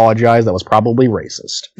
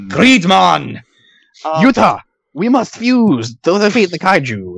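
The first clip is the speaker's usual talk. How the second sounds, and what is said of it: Badly done put-on accent. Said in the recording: “That was a terrible accent.”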